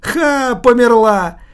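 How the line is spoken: Gleeful frenzied exclamation. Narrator (Russian): С каким-то особенным радостным остервенением воскликнул Сашка

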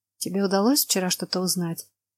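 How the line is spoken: Low-voiced question. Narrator (Russian): вполголоса поинтересовалась у камеристки

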